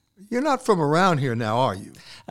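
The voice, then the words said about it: Imitates local Bluffton residents' voice. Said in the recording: “my impression of the people welcoming you to Bluffton”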